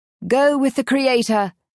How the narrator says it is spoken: he bellows

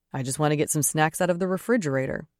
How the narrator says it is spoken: he says

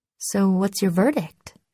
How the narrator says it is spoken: I asked

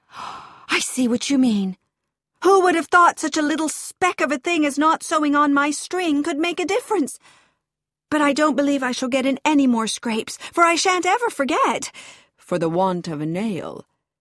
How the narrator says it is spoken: exclaimed

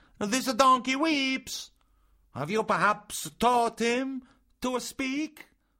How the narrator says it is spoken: cried the marionette

